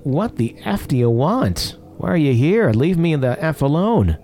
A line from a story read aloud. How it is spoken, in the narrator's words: I yelled